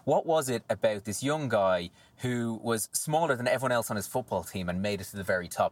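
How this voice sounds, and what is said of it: Irish accent. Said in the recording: “as you can tell from the Irish, from the accent, I'm Irish.”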